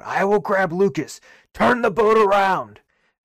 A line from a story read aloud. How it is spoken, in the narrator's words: He kind of yells out